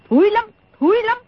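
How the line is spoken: Angry interruption. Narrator (Vietnamese): Đồng Mổ tức giận ngắt lời

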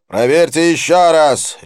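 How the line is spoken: Sharp bark. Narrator (Russian): рявкнул Дилип молнией

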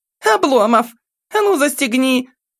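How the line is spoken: Girl's shrill squeal. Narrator (Russian): взвизгнула девчонка

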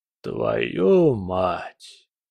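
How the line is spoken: Breathed out. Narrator (Russian): выдохнул Келлер

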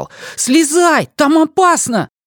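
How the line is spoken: Shout. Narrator (Russian): закричал

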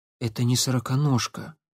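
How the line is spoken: Quiet speech. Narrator (Russian): тихо произнес он

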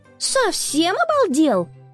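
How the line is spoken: Shouting at him. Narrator (Russian): крикнула на него Конни

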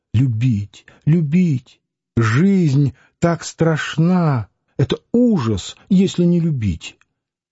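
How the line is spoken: Muffled sobbing hot whisper. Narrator (Russian): Нехаева приглушенно рыдала, говоря жарким шепотом

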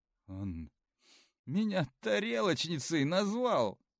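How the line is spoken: Sobbing. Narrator (Russian): всхлипнула Арина

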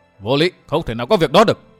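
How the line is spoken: Loud shout. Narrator (Vietnamese): Độc Cô Thanh Tùng hét to

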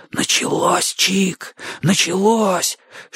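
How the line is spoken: Whisper. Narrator (Russian): шепнул Бочо

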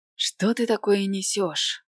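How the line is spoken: Trembling self-soothing voice. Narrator (Russian): успокаивала я себя дрожащим голосом

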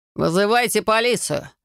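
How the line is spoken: Loud growl. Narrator (Russian): громко рыкнул Максим

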